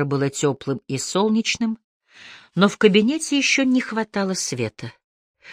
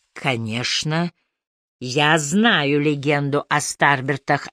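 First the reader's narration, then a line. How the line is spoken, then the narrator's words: Plain. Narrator (Russian): ответил главный констебль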